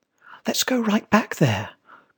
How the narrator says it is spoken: cried Tommy

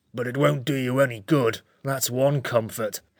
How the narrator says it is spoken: it muttered to itself

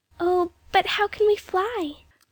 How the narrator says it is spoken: Jane said, standing anxiously

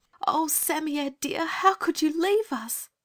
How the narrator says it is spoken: there was a shriek from inside the hut

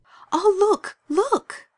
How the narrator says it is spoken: cried Anthea suddenly

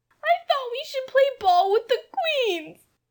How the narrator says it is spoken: sobbed Jane

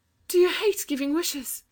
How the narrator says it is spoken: asked Anthea gently, and her voice trembled with excitement

